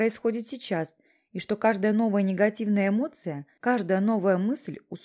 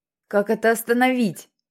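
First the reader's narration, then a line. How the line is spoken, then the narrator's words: Shouting. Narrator (Russian): закричал он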